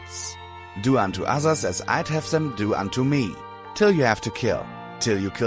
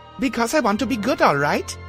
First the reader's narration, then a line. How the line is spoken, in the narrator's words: I yelled at her, glad I had recovered enough to shout